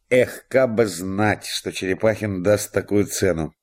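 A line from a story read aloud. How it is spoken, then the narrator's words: In an undertone. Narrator (Russian): говорил он вполголоса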